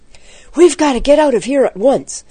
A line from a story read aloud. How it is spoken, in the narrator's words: cried Jack excitedly